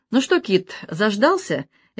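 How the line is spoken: Cheerful question. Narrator (Russian): весело спросила Рита

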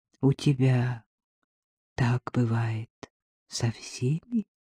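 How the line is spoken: Barely audible whisper. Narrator (Russian): прошептал Артем едва слышно

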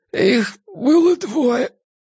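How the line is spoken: Hoarse, forced-out words. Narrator (Russian): хрипло выдавил из себя жандарм

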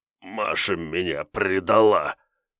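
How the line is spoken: Strained, forced out. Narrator (Russian): выдавил

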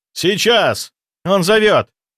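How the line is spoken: Ghost shouting. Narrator (Russian): крикнул призрак

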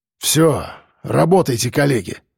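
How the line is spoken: Grumbling mutter. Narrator (Russian): пробурчал Мордюков

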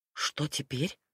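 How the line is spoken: Tragic whisper. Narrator (Russian): спросила я трагическим шепотом

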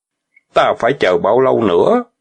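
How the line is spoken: Cold question. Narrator (Vietnamese): Tiểu Bàng lại lạnh lùng hỏi

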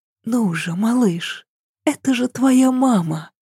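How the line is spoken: Pleading whisper. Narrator (Russian): умоляюще прошептала Ася

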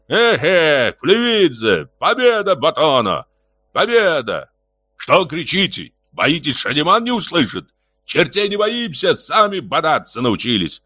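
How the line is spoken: Shouted. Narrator (Russian): выкрикнул Рыжебородый

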